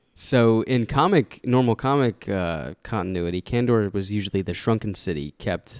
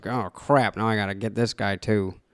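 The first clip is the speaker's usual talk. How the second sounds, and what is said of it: Comic villain character voice. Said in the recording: “That was my Brainiac impression.”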